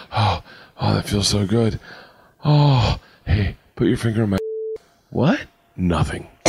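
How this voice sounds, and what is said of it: Acted voice playing himself in a scene. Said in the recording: “My impression of me asking my wife to put her finger in my.”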